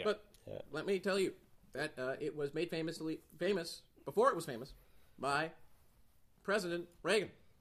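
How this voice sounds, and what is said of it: Imitation of a presidential voice. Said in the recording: “Are you doing an impression of some sort? ... a presidential voice ... President Barack Obama ... I didn't think President Barack Obama spoke like this for real. I thought he was doing an impression.”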